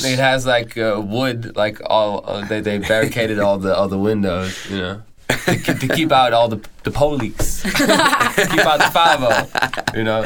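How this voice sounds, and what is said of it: Put-on accent. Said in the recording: “your accent's so good”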